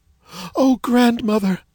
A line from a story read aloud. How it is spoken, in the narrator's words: cried the child